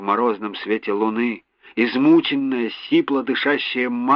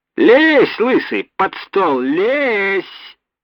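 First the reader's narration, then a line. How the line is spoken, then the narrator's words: Shrill joyful squeal. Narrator (Russian): чей-то визгливый от радости голос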